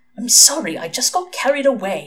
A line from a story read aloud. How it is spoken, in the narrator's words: hissed Aziraphale